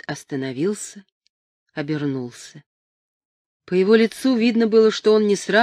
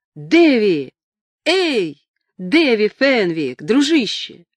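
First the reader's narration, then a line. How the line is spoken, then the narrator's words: Yelling. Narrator (Russian): Потом заорал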